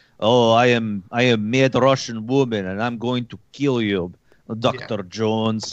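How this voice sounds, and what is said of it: Put-on Russian accent. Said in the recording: “That was a better accent than she did.”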